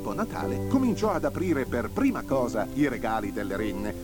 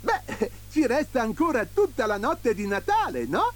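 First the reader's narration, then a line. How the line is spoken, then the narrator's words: Beaming, joyful exclamation. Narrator (Italian): esclamò Babbo Natale raggiante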